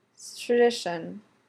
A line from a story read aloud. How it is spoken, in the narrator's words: Styles mumbles